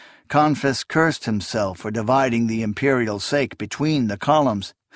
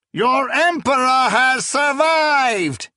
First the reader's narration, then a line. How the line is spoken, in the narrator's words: he roared